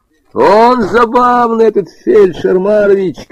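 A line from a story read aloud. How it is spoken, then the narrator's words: Shouting. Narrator (Russian): кричал Женька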